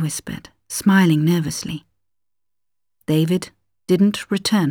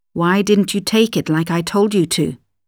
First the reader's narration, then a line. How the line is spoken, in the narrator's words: he asked her sharply